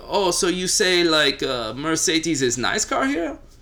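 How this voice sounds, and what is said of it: Put-on German accent. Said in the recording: “That was a very, very interesting German accent.”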